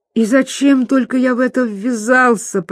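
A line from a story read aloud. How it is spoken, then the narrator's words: Groaning. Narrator (Russian): простонал Пипин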